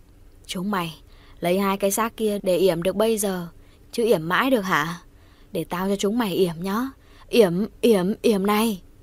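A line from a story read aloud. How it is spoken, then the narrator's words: Deep growling voice. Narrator (Vietnamese): giọng ồm ồm gầm ghè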